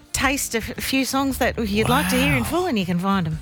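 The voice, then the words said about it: Put-on Flemington character voice. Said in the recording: “doing my Flemington voice ... That's my Flemington voice.”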